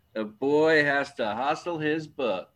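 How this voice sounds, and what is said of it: Truman Capote impression. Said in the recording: “pretty good Capote imitation”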